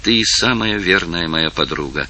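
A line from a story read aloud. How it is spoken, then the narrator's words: Quiet. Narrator (Russian): сказала тихо Изабелла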